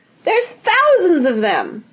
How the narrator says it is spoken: she shrieked

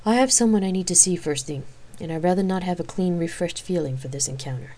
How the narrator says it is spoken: she replied solemnly

